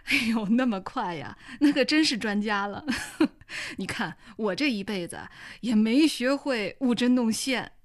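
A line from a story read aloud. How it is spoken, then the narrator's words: Loud hearty laughter. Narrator (Chinese): 王凤文朗声大笑道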